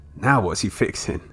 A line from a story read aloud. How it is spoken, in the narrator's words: chuckled Willie